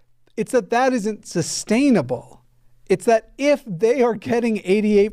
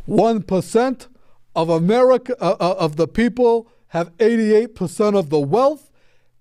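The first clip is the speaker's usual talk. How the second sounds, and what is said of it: Imitates another person's voice. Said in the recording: “my Bernie Sanders impression”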